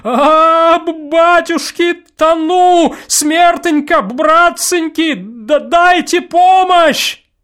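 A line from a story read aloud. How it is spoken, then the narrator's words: Frantic scream. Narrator (Russian): закричал неистово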